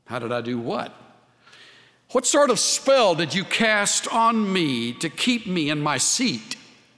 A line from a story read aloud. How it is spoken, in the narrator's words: she asked